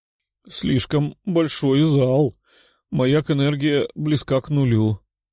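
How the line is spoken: Moaning. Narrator (Russian): простонала Юля

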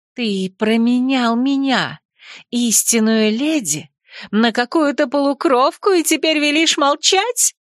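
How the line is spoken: Shrill shriek. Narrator (Russian): взвизгнула Ариана

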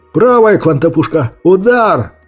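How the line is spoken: Furious yell. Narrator (Russian): Яростно заорал Торис

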